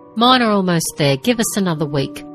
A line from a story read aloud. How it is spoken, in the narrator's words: Torrin said